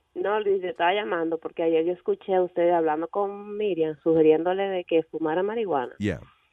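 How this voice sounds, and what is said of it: Dominican Spanish accent. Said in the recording (Spanish): “ese acento dónde viene? ... Yo soy dominicana.”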